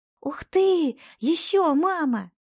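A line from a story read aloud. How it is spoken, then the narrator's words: Joyful exclamation. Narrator (Russian): Радостно восклицает Марьям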